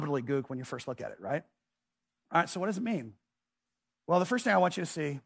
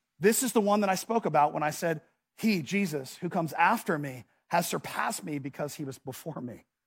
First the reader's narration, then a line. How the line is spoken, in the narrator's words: cried out